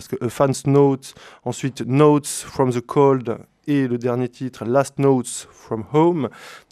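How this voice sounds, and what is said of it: Accented English pronunciation. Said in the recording (French): “Désolé pour l'accent.”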